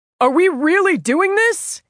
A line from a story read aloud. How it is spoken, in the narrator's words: he shouted